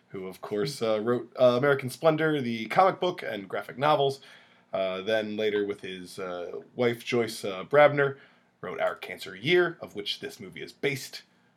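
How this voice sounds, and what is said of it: Weird-sounding voice with a cold. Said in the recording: “I have a little bit of a cough, and accompanied with a full cold. So if my voice sounds a little weird”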